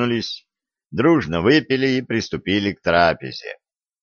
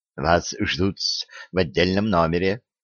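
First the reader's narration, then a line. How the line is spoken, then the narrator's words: Whispering. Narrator (Russian): прошептал половой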